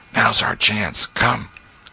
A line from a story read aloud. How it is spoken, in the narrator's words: Tom whispered